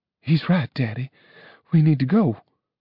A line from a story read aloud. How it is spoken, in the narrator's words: said Juliana, her voice brittle with fear